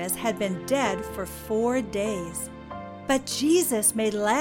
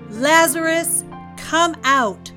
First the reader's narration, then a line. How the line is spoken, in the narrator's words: He called out in a loud voice